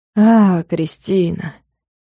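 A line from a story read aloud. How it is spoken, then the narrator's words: Sighing. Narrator (Russian): вздохнул Влад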